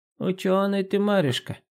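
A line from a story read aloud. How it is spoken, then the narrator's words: Creaky old woman's voice. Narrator (Russian): проскрипела старуха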